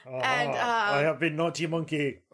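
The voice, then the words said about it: Put-on French accent. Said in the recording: “French accent.”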